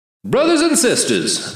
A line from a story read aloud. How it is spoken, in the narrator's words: the martyr's voice boomed